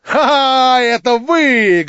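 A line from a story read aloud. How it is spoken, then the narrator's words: Loud laughter. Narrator (Russian): громко захохотал Ставрогин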